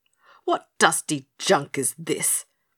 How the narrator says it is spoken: he raged

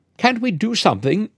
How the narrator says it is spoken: she persisted tearfully

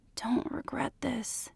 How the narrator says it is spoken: he said, his voice cracking

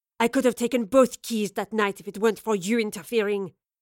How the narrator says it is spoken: Lorelei snarled

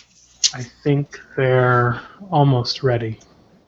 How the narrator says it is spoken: She kind of sighs and says

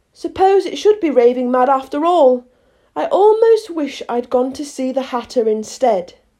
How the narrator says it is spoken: rather timidly, saying to herself

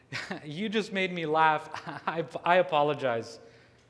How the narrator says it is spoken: Jasmine responds, still laughing and smirking

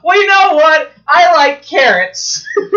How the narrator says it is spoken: you just yell, out

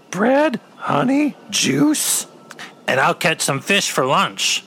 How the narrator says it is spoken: exclaimed Wicket

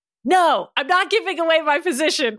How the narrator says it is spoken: Ryan yelled, clearly from behind the hip-high wall

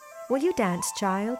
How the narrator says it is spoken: she asked in her sweet voice

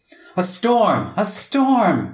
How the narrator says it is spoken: Red shouted

